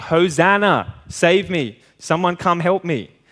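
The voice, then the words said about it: Shouting. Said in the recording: “I'm shouting”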